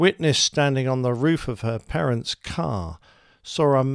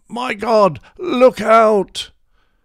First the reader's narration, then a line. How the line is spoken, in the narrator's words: the commentator shouted out